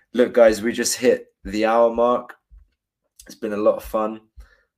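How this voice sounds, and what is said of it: Hoarse, congested voice. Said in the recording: “Sorry for my voice again. Apologies. Got a bit of a cold going on.”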